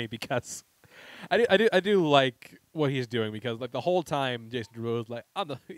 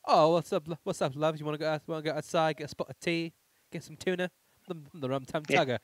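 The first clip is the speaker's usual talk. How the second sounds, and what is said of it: Put-on British accent. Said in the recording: “Is he British? ... Is he trying to be British? ... why is he doing an accent?”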